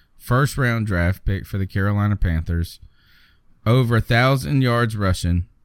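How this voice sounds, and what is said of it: Southern US accent. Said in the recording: “my Southern accent, that he had 2,000 rushing yards, as in from Russia”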